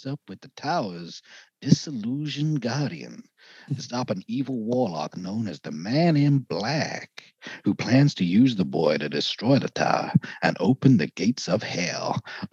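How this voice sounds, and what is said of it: Slow, molasses-like celebrity impression. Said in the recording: “it's like molasses coming through your mouth there ... in that accent ... such a good impression”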